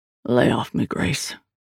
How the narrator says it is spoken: Liam said in a low voice

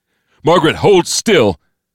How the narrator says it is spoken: Clarence, shouting to be heard over the alarm and the explosions

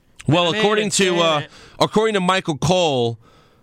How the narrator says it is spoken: he yells

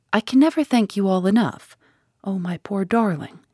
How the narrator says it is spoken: she said cheerfully

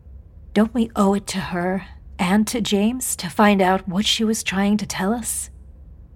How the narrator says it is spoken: In a soothing voice, she added

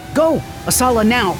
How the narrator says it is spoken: Nico shouted

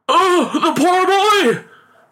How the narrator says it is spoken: cried the father in alarm

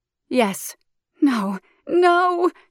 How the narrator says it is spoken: moans

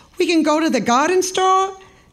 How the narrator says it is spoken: Isabella said brightly

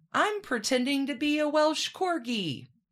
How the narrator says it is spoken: yelling

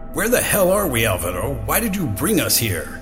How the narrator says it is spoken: yelled Mike, anger masking his fear

